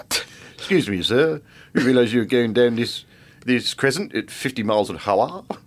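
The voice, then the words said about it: Policeman character in British accent. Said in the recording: “my policeman is now speaking in a British accent”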